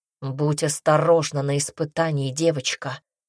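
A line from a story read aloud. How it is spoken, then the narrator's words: Gruff voice. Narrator (Russian): грубым голосом сказал он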